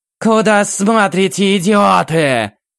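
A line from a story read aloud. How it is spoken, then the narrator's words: Sudden roar. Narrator (Russian): Внезапно проревела демоница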